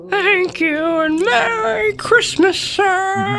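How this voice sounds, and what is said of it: Very poor strained impression voice. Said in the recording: “the absolute worst impression ever ... You sounded like a baby calf having a stroke”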